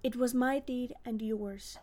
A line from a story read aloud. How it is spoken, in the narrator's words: calmly answered Siegfried